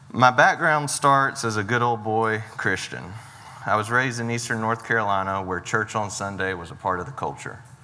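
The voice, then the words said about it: Eastern North Carolina accent. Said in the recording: “in cursive. It's an Eastern North Carolina thing ... I can tell by your accent”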